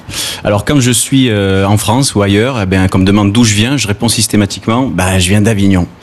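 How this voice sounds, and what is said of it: Southern French accent from the Gard. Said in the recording (French): “vous l'entendez certainement, ben, je suis d'ici ... pour toute la France, je suis du Sud, j'ai l'accent du Sud ... toi tu as l'accent du Gard”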